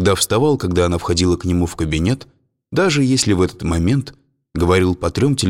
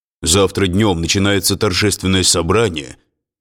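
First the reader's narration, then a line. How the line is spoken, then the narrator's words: Offended deep voice. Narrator (Russian): обиженно басил он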